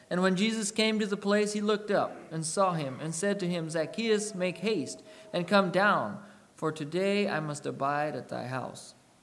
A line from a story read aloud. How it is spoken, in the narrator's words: called him by name